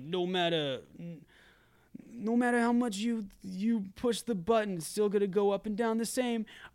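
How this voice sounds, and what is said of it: Put-on American Yankee accent. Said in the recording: “I did that in a Yankee accent.”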